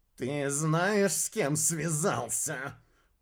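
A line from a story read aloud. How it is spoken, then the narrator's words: Hoarse rasp. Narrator (Russian): прохрипел губастый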